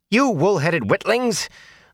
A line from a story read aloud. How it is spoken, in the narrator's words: the wisdom snapped